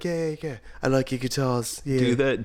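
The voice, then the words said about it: Vague put-on British accent. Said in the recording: “I'm just going to go vaguely British.”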